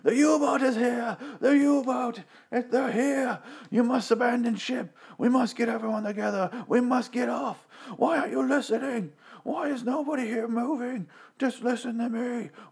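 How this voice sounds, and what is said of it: Frantic screaming, panicked shouting. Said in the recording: “he's screaming, running around the boat, screaming like a lunatic”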